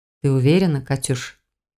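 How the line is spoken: Fiancé's serious question. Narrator (Russian): Перестав улыбаться, серьезно спросил мой без пяти минут муж

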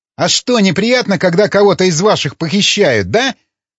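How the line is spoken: Angry shout. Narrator (Russian): зло крикнул Ломака

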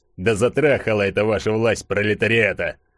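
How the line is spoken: Sudden grumble, burly man. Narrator (Russian): Вдруг пробурчал здоровенный бородатый детина

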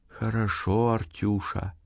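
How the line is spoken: Whisper. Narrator (Russian): также шепотом отзывалась она

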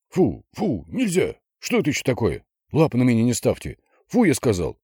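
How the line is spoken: Angry scolding. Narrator (Russian): Гоша сердито

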